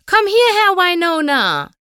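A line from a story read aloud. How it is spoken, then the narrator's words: Bellowing across a pasture. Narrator (German): brüllte Applejack über die Weide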